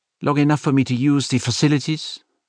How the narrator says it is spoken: Madame Arbour asked, her voice brusque

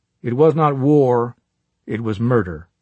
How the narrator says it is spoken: said D

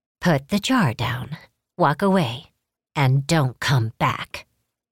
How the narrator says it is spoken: she said

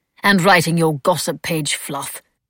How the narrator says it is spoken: Travis said sternly

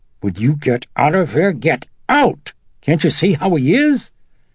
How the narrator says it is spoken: Chris snapped

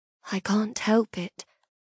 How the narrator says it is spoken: I whisper, doing my best to keep the pain from my voice

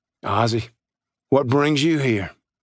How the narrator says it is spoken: Jake grunted and said

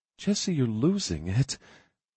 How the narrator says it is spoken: she whispered

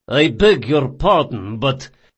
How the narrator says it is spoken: said Maraggio in a cold voice

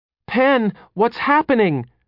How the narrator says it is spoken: Cinnaminson cried, her face frantic with confusion and fear

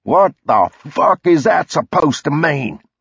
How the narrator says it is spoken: spat

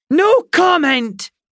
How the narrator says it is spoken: Miss Blackbird shouted

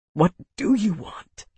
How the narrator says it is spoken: he whispered, his voice strained and choked

